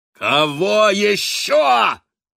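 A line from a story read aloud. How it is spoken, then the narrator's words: Roaring. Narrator (Russian): проревел Хорст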